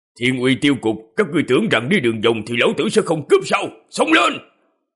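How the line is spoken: Loud distant shout. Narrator (Vietnamese): Một tiếng hét lớn từ trong đám cây truyền tới

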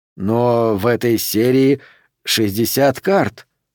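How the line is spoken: Dejected tone. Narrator (Russian): упавшим тоном произнес Уилсон

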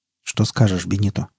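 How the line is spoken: Quiet question. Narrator (Russian): спросил негромко доктор

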